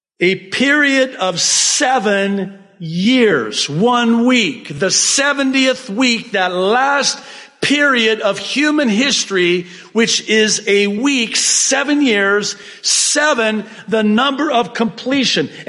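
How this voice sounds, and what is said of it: Yelling, loud voice. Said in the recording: “I'm sorry if I'm yelling.”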